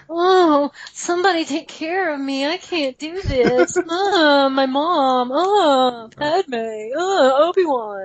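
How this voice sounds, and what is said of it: Whiny, babyish character voice. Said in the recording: “this whiny little baby man ... that impression was the best”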